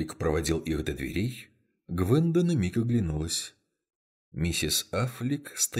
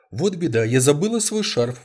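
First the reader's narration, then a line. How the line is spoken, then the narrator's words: Exclaimed. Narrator (Russian): воскликнула Гвенда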